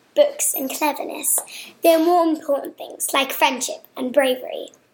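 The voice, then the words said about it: Impression of Hermione. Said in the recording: “my best Hermione impression.”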